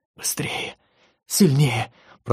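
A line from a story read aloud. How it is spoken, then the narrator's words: Whispered. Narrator (Russian): прошептала Виктория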